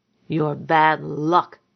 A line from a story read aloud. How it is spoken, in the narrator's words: growled at her